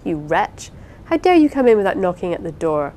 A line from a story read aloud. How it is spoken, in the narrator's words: cried Rosamond, passing in an instant from the height of fondness to the height of indignation